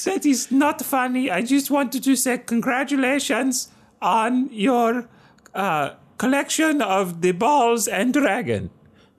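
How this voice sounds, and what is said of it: Fake Dutch accent. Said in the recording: “I picked up a fake accent... real, authentic Dutch accent”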